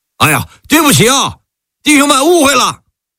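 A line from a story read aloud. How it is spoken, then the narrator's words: Soldiers shouting apologetically. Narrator (Chinese): 74军的士兵们还抱歉的喊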